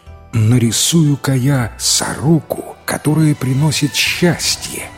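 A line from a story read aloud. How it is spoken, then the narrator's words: Joyful. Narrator (Russian): радостно сказал Ма Лян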